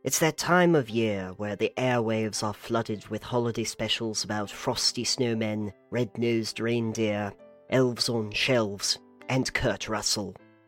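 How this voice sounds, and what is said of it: Put-on British accent. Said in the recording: “doing some sort of British accent.”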